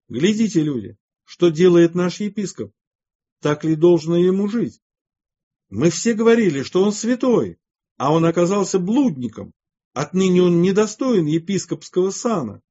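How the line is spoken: Loud crowd shouting. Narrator (Russian): громко закричали

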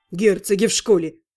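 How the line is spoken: Snorting. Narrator (Russian): хмыкнул Рос

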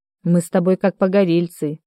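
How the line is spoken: Sad, father. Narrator (Russian): грустно сказал отец

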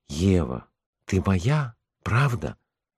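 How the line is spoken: Quiet question. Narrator (Russian): я тихо спросил

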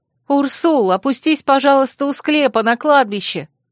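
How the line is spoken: Shout. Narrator (Russian): крикнула

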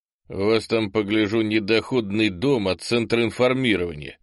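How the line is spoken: Wry snort. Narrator (Russian): хмыкнул попаданец

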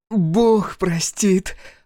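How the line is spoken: Eager hoarse rasp. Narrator (Russian): азартно прохрипела она

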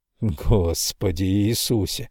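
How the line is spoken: Sighed. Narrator (Russian): вздохнул Крамли

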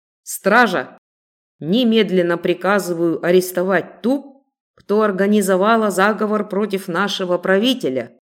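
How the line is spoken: Stern, loud, confident. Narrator (Russian): Мужчина говорил строго, громко и весьма уверенно

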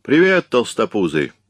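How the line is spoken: Deafening bark. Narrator (Russian): рявкнул он так, что у меня чуть не лопнули барабанные перепонки

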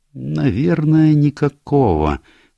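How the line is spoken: Slow reply. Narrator (Russian): медленно ответила Джулия

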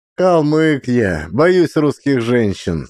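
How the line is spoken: Laughing. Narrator (Russian): смеялся Максим

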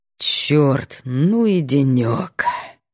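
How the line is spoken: Tired exhale. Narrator (Russian): Выдыхает устало

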